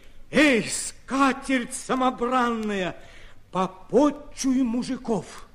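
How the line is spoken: Crying out in unison. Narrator (Russian): разом вскрикнули

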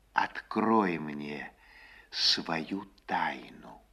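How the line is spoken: Quiet near whisper. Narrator (Russian): тихонько, чуть не шепотом, говорит

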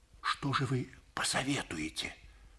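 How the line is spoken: Whisper. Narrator (Russian): прошептал МакКоннор

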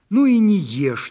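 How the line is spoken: Shouting. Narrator (Russian): закричала Ляфрус Ханум

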